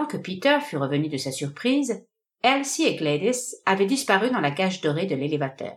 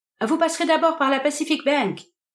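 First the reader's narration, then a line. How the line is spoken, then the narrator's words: Shouting into speaking tube. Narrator (French): cria Gladys dans le tuyau acoustique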